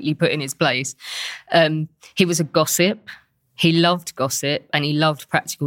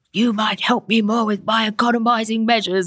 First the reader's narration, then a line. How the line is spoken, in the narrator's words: just sort of bellowed down the table